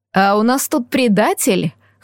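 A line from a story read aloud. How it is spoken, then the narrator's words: Snort. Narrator (Russian): хмыкнула леди Фея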